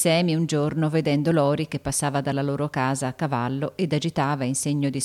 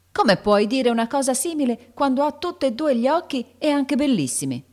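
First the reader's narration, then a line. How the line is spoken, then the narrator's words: Furious shout. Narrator (Italian): gridò Joe, che montava subito in furia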